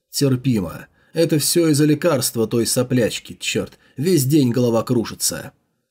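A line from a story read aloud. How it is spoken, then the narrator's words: Muffled answer. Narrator (Russian): Джао Юньлань … глухим голосом ответил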